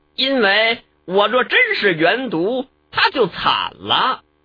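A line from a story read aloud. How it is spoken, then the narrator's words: Cold. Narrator (Chinese): 元毒冷冷道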